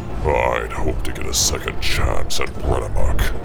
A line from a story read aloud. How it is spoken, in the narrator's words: he growled